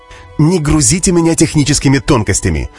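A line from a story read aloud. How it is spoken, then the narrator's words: Irritated dismissive leader. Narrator (Russian): раздраженно отмахнулся глава государства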